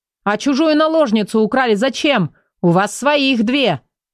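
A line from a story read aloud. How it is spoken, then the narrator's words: Indignant shout. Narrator (Russian): возмущенно выкрикнул длинный Никол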